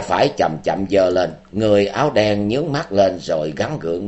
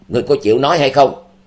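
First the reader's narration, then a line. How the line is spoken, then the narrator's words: Shout. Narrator (Vietnamese): Tình Hải Ma Tử quát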